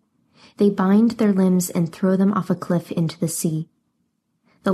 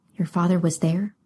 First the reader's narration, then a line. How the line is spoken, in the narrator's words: Alcander spoke so quietly she could hardly hear him